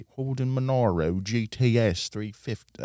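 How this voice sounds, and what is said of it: Put-on British accent. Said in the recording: “Again, a British accent.”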